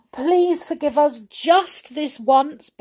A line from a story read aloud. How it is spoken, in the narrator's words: begged all the naughty little fairies